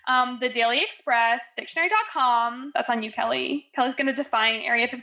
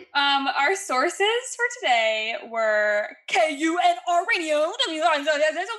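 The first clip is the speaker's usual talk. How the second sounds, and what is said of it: Imitates a radio host voice. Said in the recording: “That was my impression of a radio host.”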